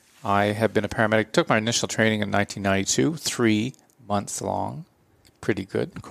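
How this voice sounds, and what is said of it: Canadian English accent. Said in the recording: “from the accent, you can tell I'm from Canada”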